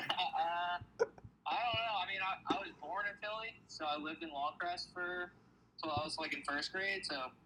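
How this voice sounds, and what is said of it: Pronounced Philadelphia accent. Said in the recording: “such a more pronounced Philly accent than Kevin and Ari do”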